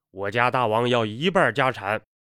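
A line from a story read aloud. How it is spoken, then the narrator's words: Angry voice. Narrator (Chinese): 怒声说道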